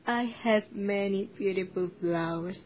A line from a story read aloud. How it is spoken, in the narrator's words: he said